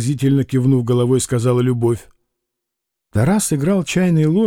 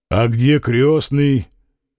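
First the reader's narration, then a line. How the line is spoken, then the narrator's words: Plain. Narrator (Russian): спросил Фома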